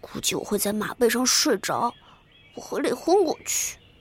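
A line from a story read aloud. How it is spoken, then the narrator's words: Girl muttering. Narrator (Chinese): 女孩嘟囔道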